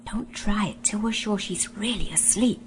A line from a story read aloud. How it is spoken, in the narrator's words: whispered Scrub